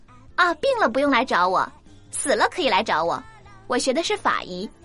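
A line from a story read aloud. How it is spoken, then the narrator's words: Cold. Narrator (Chinese): 姑娘冷冷的说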